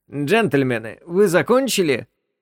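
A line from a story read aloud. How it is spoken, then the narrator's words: Calm voice. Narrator (Russian): раздался рядом спокойный голос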